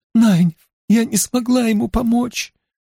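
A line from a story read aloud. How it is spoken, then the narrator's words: Sobbing. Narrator (Russian): рыдала она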